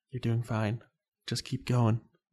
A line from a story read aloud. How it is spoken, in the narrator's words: encouragingly and whispered